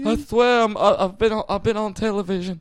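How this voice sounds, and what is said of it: Desperate Southern belle accent. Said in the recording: “my desperate voice sounds like a Southern Belle”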